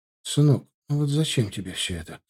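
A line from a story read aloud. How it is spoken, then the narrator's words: Whispering. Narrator (Russian): зашептала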